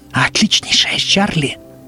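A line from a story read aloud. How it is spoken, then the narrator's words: Hissing whisper. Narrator (Russian): Продолжала она свистящим шепотом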